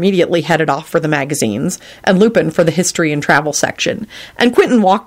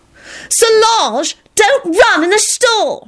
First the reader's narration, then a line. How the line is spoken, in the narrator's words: she yelled angrily